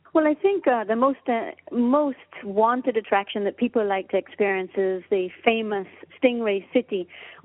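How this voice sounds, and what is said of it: Caymanian accent. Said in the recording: “We have that accent right on the end where we go Cayman Island.”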